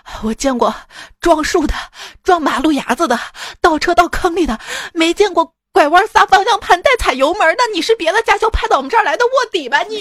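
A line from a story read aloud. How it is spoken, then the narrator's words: Sweaty, panting. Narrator (Chinese): 教练那个汗珠子淌的，边喘气边说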